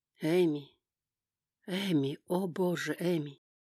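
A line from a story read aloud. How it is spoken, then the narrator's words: Groaning. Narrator (Russian): Он застонал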